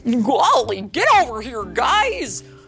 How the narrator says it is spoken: Goofy shouted

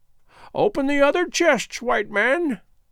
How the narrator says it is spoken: croaked Gagool

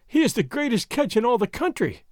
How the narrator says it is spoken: Doña Catalina was wailing

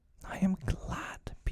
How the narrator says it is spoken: Peter cried

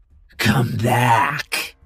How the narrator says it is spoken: croaked

